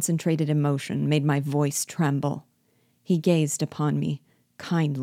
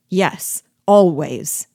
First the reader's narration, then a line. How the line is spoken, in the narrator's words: returned I, furiously